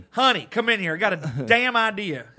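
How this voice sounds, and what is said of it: Put-on redneck accent. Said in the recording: “everyone in Florida has a redneck accent right now”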